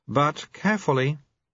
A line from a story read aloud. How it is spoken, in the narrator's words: said Wen, and sighed